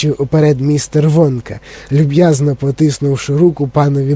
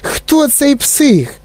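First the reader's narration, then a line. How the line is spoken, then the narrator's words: Shout, old woman. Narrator (Ukrainian): закричала бабуся Джозефіна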